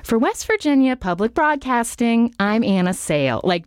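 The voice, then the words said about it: Sing-songy Nina Totenberg-style radio delivery. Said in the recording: “I was trying to impersonate Nina Totenberg ... She's very animated ... it would be very sing-songy, my delivery.”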